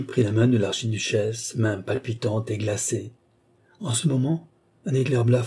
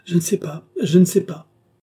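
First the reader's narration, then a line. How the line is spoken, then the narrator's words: Exclaimed. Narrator (French): s'écria Marie-Antoinette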